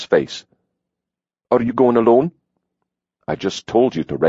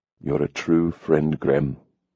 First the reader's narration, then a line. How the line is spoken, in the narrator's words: Hawk said softly